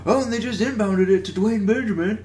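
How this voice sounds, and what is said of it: Imitates a sports commentator's voice. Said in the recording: “That was my Bill Walton impression.”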